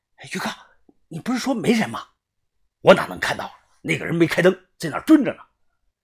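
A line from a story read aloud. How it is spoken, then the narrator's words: Anxious low question. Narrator (Chinese): 着急的低声的问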